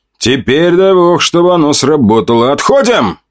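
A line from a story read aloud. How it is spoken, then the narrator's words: Commanding. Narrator (Russian): приказал я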